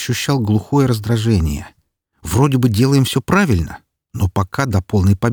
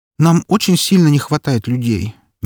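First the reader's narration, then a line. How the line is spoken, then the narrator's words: Displeased sigh. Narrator (Russian): недовольно вздохнула Эльсийка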